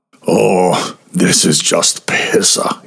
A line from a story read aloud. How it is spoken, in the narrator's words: he groaned